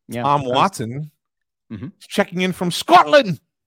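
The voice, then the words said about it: Poor attempt at Scottish accent. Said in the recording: “Was that supposed to be a Scottish accent, by the way? ... It's not Scottish. It's crap.”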